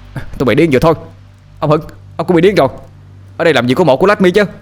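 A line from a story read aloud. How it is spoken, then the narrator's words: Frantic yelling. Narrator (Vietnamese): Sinh bị chúng giải đi thì tiếp tục la hét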